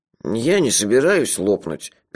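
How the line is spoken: Sad objection. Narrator (Russian): печально возразил Мелифара

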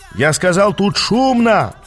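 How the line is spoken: Shout. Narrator (Russian): крикнул я

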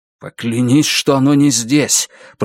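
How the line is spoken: Hissed. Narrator (Russian): прошипел Лун

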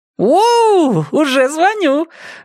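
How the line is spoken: Joyful yell. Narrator (Russian): радостно завопила Аня

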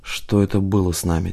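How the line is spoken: Quiet question. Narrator (Russian): тихо спросил Одинцов

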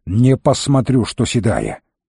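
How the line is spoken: Growling. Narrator (Russian): зарычал на Ниэлит

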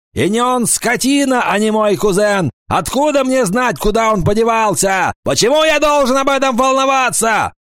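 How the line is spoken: Shouting. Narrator (Russian): Паламброн закричал

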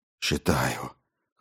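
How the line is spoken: Hoarse exhale. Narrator (Russian): Хрипло выдохнул он

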